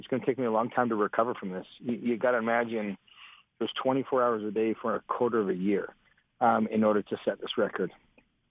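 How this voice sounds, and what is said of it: Hoarse, strained voice. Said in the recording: “you can hear I've lost my voice,”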